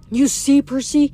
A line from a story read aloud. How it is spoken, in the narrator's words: whispered